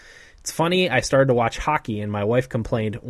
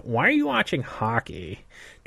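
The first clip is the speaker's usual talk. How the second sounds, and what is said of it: Nagging woman's voice. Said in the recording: “in a bitchy voice, bitchy woman's voice. That was my bitchy woman's voice”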